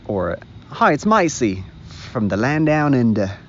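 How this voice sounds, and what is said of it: Poor put-on Australian accent. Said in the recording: “I need to work on my accent. That's bad.”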